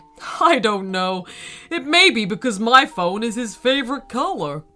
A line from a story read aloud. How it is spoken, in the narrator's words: Her dad laughed and replied